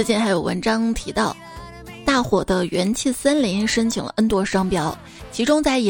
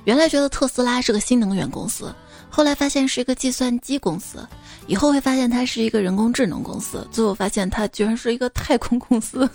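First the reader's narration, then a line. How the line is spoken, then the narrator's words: Musing exclamation. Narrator (Chinese): 一位券商首席感叹道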